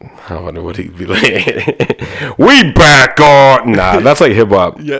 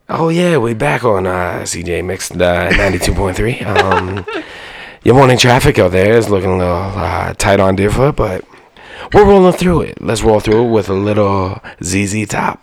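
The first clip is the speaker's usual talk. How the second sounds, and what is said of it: Morning rock radio announcer voice. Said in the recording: “do your best morning rock channel announcer voice”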